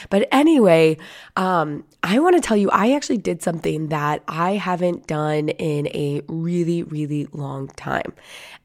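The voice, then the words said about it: Deep, husky voice from a cold. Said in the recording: “my voice is extra sultry right now just because I am working through a lovely cold ... never mind the deep voice”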